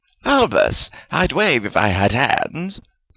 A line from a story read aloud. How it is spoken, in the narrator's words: Salazar said happily